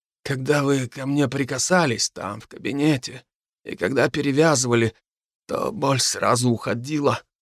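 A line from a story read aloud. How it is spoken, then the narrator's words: Hoarse, suddenly weakened voice. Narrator (Russian): произнес он хриплым и внезапно ослабевшим голосом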